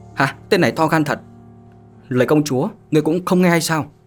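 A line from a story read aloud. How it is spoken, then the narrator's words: Loud shout. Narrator (Vietnamese): Tín Tử quát lớn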